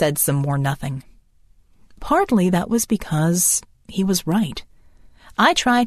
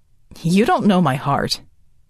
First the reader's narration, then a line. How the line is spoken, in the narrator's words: said harshly